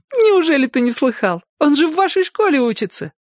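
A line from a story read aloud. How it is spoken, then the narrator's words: Asked after laughing fit. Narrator (Russian): Девочка захлебнулась от хохота, а потом, отхохотавшись, спросила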